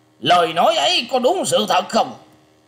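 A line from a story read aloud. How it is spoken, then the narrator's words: Fierce loud shout. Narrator (Vietnamese): Lôi Minh Tiêu nghe qua, đôi mắt liền sáng ngời hung tợn, quát to lên rằng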